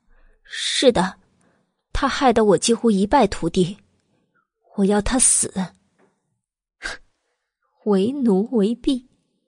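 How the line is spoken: Trembling, reluctant voice. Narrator (Chinese): 慕容子言心头一颤，只能硬着头皮颤声道

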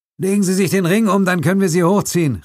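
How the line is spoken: Calling out. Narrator (German): rief der Chinese dem zitternden Gerichtsmediziner zu

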